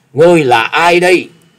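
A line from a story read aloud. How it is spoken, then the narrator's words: Alarmed loud question. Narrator (Vietnamese): Gã Phiền Tăng vô cùng kinh hãi lớn tiếng hỏi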